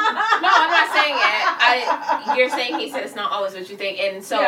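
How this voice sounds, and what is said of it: Usual voice. Nothing is said of it.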